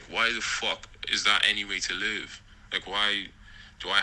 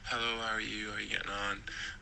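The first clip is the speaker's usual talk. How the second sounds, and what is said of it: Soft, polite put-on 'white' voice. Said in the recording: “put on the white voice ... be very, very soft when I'm approaching”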